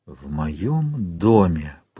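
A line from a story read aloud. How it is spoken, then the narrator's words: Whispered. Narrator (Russian): прошептал он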